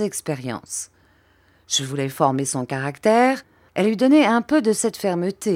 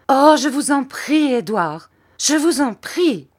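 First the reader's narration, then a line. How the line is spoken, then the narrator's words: Mother's pleading cry. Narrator (French): cria ma mère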